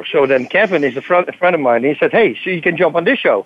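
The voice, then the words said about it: Dutch accent. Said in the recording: “He's a Dutch guy, so it's great. I don't have to be worried about my accent too much.”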